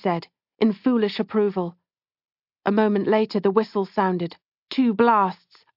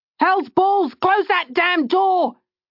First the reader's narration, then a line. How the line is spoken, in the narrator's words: Jelen roared